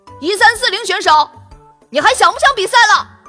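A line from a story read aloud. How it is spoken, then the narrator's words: Boy shouting. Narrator (Chinese): 一个男孩冲糖糖大喊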